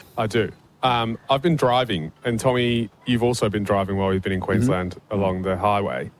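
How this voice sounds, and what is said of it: English accent. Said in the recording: “hails originally from England. That's why his voice sounds a bit funny”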